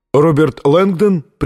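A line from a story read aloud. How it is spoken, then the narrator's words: Friendly call, foreign accent. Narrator (Russian): приветливо окликнул он его с незнакомым акцентом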